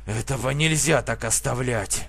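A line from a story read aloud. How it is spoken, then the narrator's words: Growled. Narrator (Russian): прорычал Артур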